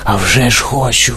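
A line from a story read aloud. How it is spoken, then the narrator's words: Excited whisper, old man. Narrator (Ukrainian): схвильовано прошепотів старий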